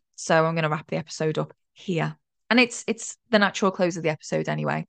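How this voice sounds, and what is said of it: Croaky voice. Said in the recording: “My voice is a bit croaky”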